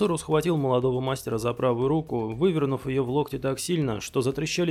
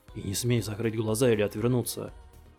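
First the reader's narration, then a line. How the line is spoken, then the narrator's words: Hiss. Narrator (Russian): Прошипел он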